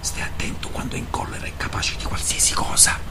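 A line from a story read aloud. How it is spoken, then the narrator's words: Whispered warning. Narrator (Italian): bisbigliò Macari alle verte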